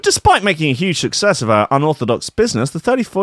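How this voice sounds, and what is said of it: Usual voice. Nothing is said of it.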